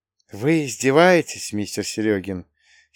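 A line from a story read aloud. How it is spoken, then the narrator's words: Hoarse nervous rustling whisper. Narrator (Russian): сипло прошелестел старина Роберт, нервно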